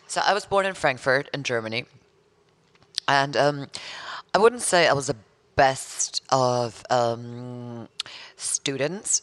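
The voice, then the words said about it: Hybrid accent. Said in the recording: “your accent... explain that. Because it's a hybrid, isn't it?”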